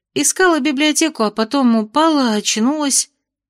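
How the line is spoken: Mumbled. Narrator (Russian): промямлила Майя

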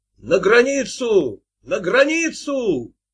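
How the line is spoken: Shouting at top of lungs. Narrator (Russian): сами кричали во все горло

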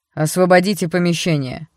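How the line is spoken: Furious bark. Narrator (Russian): рявкнул капитан, выходя из себя

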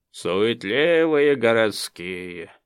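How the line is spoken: Grumbling creaky voice. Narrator (Russian): ворчаливо проскрипел головешник

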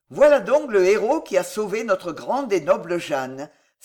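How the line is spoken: Exclaiming. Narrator (French): s'écria Téligny

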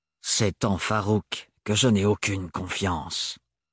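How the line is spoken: Harsh voice. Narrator (French): dit Thorne d'une voix dure

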